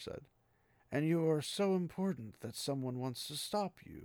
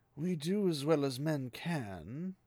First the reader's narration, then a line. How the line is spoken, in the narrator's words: Aglomar said dryly